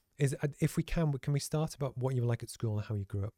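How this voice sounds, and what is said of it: Croaky, hoarse voice. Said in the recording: “sorry, my voice is a bit croaky today”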